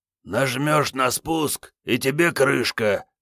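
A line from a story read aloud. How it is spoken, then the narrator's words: Hoarse tipsy man's voice. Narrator (Russian): сказал мужичок с Мосинкой хриплым подпитым голосом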